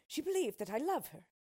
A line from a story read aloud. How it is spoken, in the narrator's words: cried the king